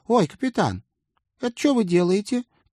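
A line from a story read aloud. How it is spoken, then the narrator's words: Squeak. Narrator (Russian): пискнула мисс Отвертка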